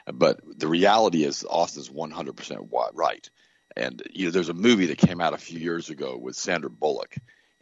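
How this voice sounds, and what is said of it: Unusually deep, rough voice. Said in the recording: “my voice is a little bit messed up today, and I either sound like James Earl Jones or Barry White”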